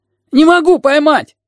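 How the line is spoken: Shouting. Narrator (Russian): крикнул сиамец

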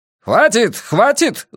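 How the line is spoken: Yelling. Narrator (Russian): заорал я

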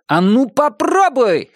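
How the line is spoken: Brave shout. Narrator (Russian): храбро выкрикнул Том

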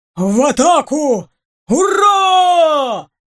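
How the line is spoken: Battle roar. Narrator (Russian): Уйма взревел

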